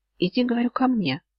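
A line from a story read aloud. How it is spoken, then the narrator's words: Calm repetition. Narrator (Russian): спокойно повторил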